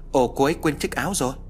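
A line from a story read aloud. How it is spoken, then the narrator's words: Exclaiming. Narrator (Vietnamese): Hoàng kêu lên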